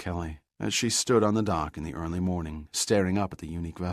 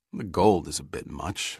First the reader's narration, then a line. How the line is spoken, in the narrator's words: muttered Giordino